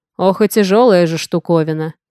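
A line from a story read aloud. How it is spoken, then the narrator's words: Snorting. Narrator (Russian): фыркнул сутулый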